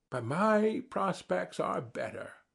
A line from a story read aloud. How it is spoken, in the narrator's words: said the other warmly